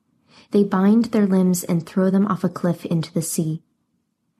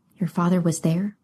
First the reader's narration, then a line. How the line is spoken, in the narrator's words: Alcander spoke so quietly she could hardly hear him